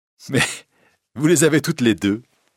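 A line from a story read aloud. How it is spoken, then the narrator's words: Laughing. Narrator (French): dit Christine en riant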